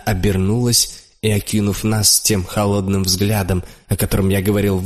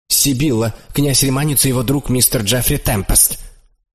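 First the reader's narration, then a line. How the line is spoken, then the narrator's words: Sharp old man's voice. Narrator (Russian): старик довольно резко обратился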